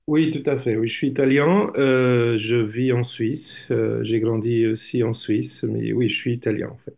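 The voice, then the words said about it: Slight Italian accent in French. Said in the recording (French): “votre petit accent ... vous avez une nationalité italienne”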